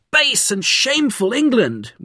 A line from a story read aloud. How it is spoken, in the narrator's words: screamed